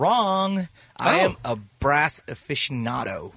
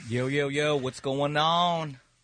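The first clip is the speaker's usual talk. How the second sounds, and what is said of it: Put-on accent. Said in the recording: “don't do that. Don't do that accent.”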